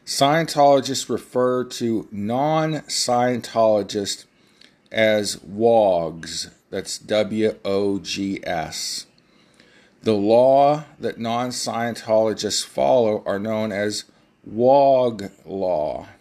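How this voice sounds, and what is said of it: Speaker's own noticeable accent. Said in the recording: “in case my accent throws you off when I'm pronunciating it”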